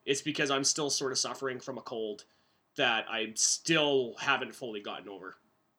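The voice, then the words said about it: Lethargic, worn-out voice from cold. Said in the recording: “I sound a little bit lethargic or my voice sounds a little bit shot ... suffering from a cold that has now gone into my chest”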